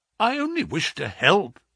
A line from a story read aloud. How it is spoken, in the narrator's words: exclaimed